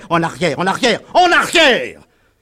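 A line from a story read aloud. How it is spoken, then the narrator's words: Farmer yelling. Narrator (French): hurlait un cultivateur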